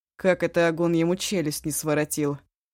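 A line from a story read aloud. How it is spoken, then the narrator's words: Grumbled. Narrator (Russian): проворчал Ишу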